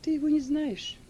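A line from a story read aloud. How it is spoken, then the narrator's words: Calm answer. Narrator (Russian): спокойно отвечала Сильва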